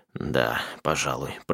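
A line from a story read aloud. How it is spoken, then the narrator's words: Muttering. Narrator (Russian): пробормотал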